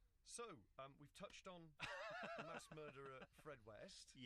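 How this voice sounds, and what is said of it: Usual voice. Nothing is said of it.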